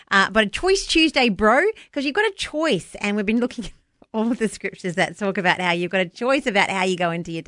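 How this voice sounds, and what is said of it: New Zealand accent, Kiwi twang. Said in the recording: “It's got a bit of a Kiwi twang to it. Sorry, that's my accent.”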